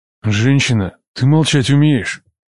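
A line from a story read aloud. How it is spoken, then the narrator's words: Growled. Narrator (Russian): Зарычал он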